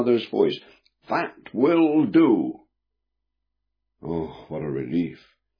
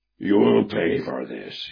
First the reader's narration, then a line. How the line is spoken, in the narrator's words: he snarled through clenched lips